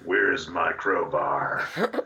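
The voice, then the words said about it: Impression of R.G. Armstrong. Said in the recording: “I'm gonna do my impression of him in fucking Evil Speak”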